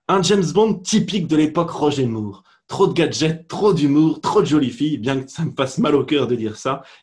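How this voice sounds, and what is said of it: Put-on Belgian French accent. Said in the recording (French): “c'est l'heure de l'accent belge”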